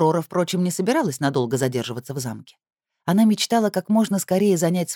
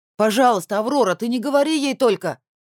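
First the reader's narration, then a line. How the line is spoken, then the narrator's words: Shouted after closing door. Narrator (Russian): прокричал Алишер вслед закрывающейся двери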